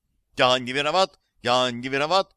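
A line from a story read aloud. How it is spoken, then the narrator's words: Shouted reply. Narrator (Russian): крикнул ответ водитель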